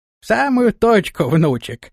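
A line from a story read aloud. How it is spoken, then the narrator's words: Laughing. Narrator (Russian): рассмеялся Флаппий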